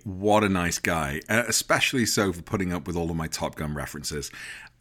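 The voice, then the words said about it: British English accent. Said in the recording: “as a Brit ... in my English accent”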